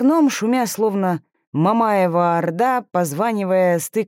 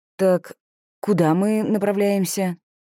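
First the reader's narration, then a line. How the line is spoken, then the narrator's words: Gentle reminder. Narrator (Russian): Мак мягко напомнил свой вопрос собеседнице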